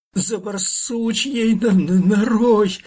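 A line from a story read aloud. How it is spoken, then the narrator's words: Shriek through pain. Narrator (Russian): завизжал Фир, превозмогая боль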